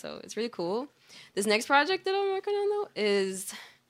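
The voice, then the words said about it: Excited, unusually high-pitched voice. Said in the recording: “why did my voice get so high? I always do that. ... Excitement.”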